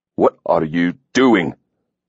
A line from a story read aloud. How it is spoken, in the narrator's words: Hawk growled